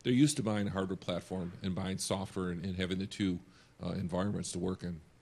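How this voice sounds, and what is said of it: Hoarse, fading voice. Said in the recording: “I'm losing my voice. It's my Vegas voice.”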